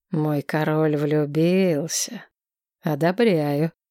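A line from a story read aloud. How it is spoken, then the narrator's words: Smirking drawl. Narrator (Russian): Усмехнувшись, ректор Вальтер протянул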